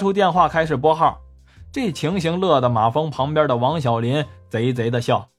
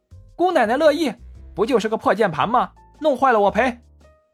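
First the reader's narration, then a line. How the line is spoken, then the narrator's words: Flustered, angry. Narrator (Chinese): 文文小脸通红，恼羞成怒地说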